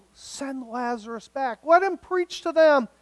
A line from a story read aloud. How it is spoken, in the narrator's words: he begged